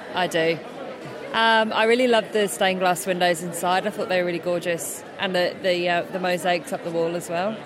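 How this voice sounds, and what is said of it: British accent. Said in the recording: “You've got a British accent.”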